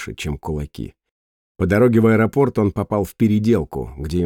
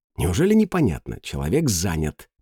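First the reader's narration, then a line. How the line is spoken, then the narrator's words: Hiss. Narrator (Russian): прошипела Майя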